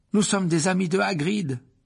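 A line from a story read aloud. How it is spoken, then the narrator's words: Exclaimed. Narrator (French): s'écria Harry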